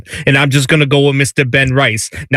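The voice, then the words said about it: Put-on New York accent. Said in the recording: “my best New York impression”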